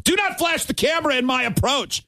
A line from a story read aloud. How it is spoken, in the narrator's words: another famous outburst where he yelled